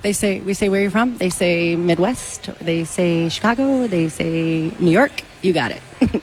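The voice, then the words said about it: Chicago accent. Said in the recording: “Can you see it? Hear it in my voice? Chicago.”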